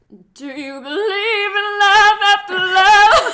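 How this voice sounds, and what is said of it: Sings imitating a pop singer's voice. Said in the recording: “your best Cher impression ... That was good.”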